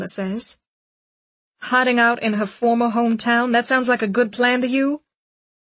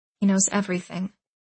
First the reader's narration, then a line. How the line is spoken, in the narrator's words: Charlotte says quietly